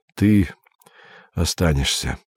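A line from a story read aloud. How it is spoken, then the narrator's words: Tired. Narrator (Russian): сказал Андрей устало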